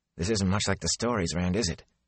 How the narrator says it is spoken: he said hoarsely

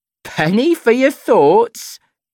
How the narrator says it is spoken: she says, laughing

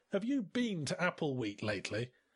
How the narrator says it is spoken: He scoffed

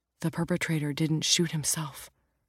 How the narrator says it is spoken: Jack says in a low voice

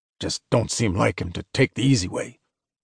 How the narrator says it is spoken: Walker muttered

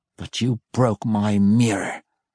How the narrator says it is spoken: the master growled

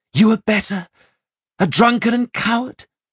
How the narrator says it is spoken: she snapped

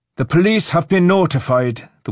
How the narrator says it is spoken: the woman shouted

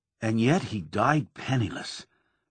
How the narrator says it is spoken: the reporter said in a thoughtful voice

